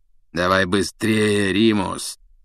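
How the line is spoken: Hoarse urging. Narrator (Russian): сипло поторопил его Блэк

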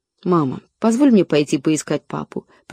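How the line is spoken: Whisper. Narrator (Russian): прошептала Лора

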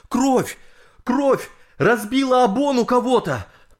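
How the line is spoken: Alarmed shouting men. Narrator (Russian): сплавщики с катера, спасавшие людей, закричали

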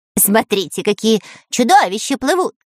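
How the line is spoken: Shouted. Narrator (Russian): закричал Дырка

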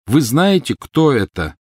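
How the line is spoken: Very loud, deliberate repetition. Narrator (Russian): повторил он очень громко и раздельно

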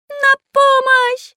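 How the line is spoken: Shouting at top of lungs. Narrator (Russian): кричал во все горло Карандаш

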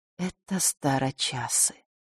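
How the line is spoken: Quiet. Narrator (Russian): тихо сказала Клементина

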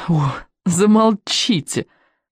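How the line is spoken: Laughing. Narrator (Russian): сказала я, но уже смеясь

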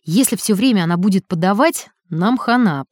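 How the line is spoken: Deep bass voice. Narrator (Russian): пробасил Гусев

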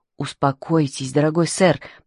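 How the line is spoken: Whispered in ear. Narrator (Russian): прошептал Твайнинг на ухо мистеру Гиддингу

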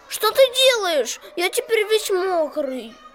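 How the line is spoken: Squeaked. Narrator (Russian): пискнул

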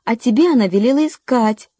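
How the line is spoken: Shrill squeal. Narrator (Russian): взвизгнула Кэрри

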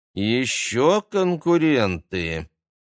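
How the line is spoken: Displeased drawl, young woman. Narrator (Russian): недовольно протянула девушка с длинными темными волосами

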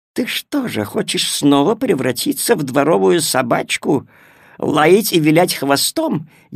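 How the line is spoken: Sarcastic cat. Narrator (Russian): язвительно спросила кошка

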